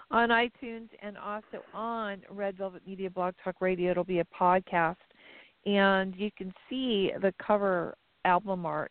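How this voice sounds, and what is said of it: Hoarse, strained, fading voice. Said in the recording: “I'm sorry, my voice is kind of going.”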